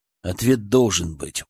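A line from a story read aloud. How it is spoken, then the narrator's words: Stubborn mutter. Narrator (Russian): упрямо пробормотал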